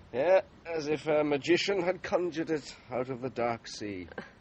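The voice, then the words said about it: Irish brogue. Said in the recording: “You're Irish, aren't you? ... I can't disguise the brogue then, even after 25 years away. ... it's not only the accent.”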